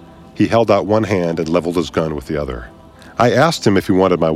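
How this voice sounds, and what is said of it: Usual voice. Nothing is said of it.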